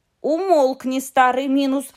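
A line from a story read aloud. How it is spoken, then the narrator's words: Plain. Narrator (Russian): сказали братья Гримм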